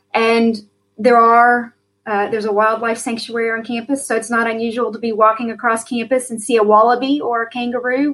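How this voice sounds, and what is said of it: American accent. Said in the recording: “you hear my good American accent ... I don't have a good Australian accent.”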